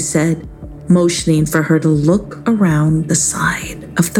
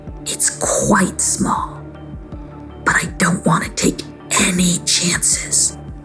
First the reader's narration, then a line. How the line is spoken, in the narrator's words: whispered Zephyr